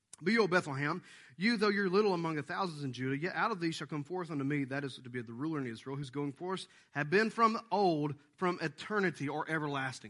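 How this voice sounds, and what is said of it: Reads scripture very fast. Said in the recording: “I'm going to read it fast to you”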